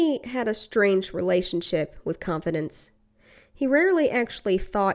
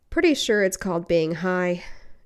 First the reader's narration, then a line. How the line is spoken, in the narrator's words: Eddie sighed